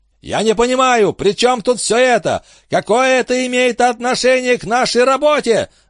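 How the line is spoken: Screamed in strange voice. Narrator (Russian): заорал Энди не своим голосом

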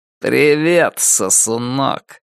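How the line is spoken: Curt, unpleasant male voice. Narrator (Russian): бросил ему мужчина с неприятным голосом

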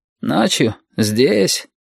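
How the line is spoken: Sleepy surprise. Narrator (Russian): сонно удивился Шамиль

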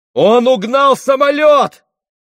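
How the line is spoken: Running man shouting. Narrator (Russian): закричал бегущий к ним летчик

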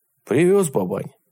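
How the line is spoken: Timid. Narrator (Russian): робко сказал Иван Егорович

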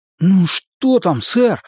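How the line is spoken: Pleading. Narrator (Russian): взмолился Сет

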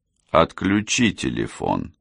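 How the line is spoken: Cold suggestion. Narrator (Russian): холодно предложил голос

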